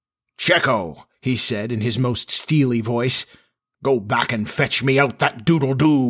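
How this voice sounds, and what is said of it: Usual voice. Nothing is said of it.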